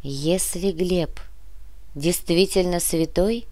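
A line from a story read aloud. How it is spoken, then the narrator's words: Sighing. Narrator (Russian): вздохнула Яна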